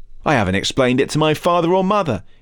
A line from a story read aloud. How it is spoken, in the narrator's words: he replied